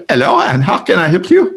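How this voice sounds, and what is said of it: Imitated call-center accent. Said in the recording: “his accent and dialect was, was a dialect that we many of us are are used to getting when you're on these on these phone circuits”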